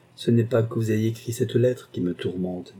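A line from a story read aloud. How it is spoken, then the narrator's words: Plain. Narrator (French): dit-il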